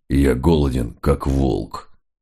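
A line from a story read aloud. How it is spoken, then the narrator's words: Muttering. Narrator (Russian): Мегре бормоча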